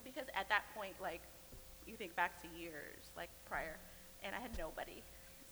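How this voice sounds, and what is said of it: Tearful, emotional voice. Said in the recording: “I'm gonna get emotional ... I told myself I wasn't going to cry, but oh, too late.”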